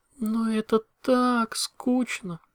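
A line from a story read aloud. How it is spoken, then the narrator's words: Drawling. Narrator (Russian): протянула Кейденс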